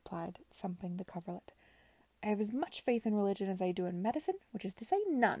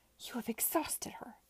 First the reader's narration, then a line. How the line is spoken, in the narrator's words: hissed Clara at the Denhams